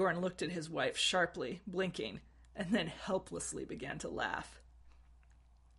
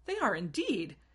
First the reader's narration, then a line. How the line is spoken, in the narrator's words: exclaimed Arwen